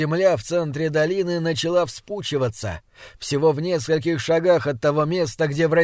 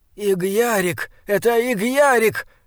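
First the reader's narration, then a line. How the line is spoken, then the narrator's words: Weak cry. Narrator (Russian): слабо вскрикнул Бинабик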